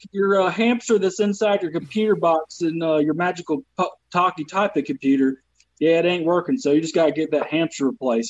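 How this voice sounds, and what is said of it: Southern American accent. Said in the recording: “anything I say in this accent ... I hide my accent ... I'm from the South”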